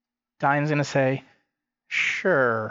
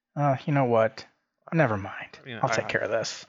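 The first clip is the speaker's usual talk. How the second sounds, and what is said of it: Low, quiet voice. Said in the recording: “then in a low voice,”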